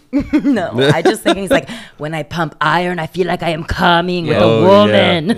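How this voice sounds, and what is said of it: Imitates another person's voice. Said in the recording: “good old Arnold impression”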